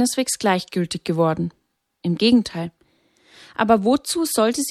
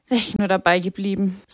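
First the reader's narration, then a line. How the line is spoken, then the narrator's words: Sighing. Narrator (German): seufzte sie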